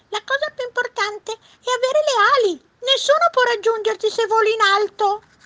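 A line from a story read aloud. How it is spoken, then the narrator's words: Bird shrieking. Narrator (Italian): strillò l'uccello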